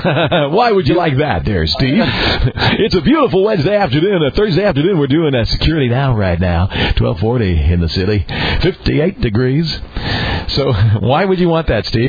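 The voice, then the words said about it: Radio DJ voice. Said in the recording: “I would love our listeners to hear you switch to DJ mode”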